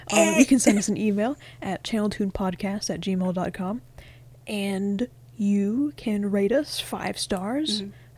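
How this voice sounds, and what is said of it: Hoarse, strained voice. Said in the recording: “Oh my god, I'm losing my voice.”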